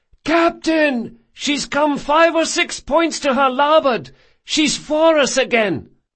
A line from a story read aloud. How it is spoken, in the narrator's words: came the shout